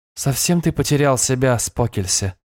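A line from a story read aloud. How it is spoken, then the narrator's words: Soft. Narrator (Russian): мягко выговорила она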